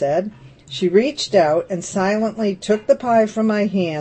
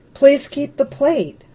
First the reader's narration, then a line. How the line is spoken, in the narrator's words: I sputtered